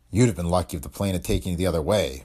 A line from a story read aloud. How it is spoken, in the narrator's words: Boyd grunted